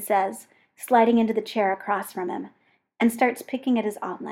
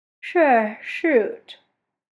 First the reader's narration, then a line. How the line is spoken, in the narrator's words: John says, yawning